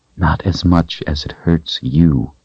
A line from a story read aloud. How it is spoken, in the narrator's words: the woman in front of him whispered